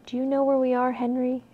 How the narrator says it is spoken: asked softly

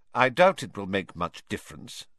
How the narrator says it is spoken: said Professor McGonagall coldly

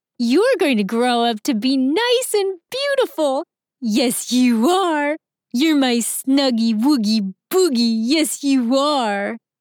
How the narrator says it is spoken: Scarlet stops singing her cheerful tune and playfully says

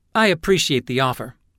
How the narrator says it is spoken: Hayes said

